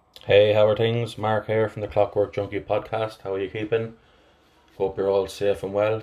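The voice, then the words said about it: Flat Irish Athlone accent. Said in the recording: “my flat Athlone accent”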